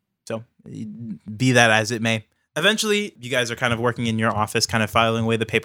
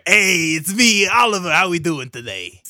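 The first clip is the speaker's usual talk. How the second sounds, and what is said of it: Character voice with different accent. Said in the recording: “He sounds like a little Gary ... He's got a different accent.”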